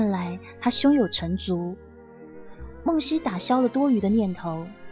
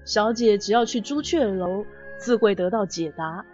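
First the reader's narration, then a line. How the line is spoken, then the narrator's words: Laughing. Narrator (Chinese): 荀弋笑道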